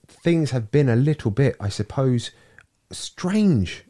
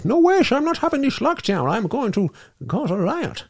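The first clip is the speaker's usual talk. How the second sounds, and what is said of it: Put-on Dutch accent, fairly convincing. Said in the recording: “the Dutch have been like ... It's a pretty good accent, actually. It's pretty good. Quite impressed with that.”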